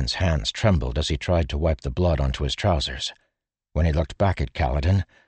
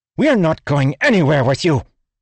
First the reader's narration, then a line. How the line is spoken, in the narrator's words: Lirin snapped